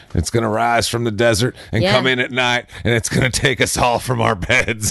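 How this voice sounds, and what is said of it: Put-on southern preacher-style wrestling cadence. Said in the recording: “Your southern accent is oddly like a wrestling character ... it's like weird macho man ... kind of have like a preacher thing to them. That kind of cadence”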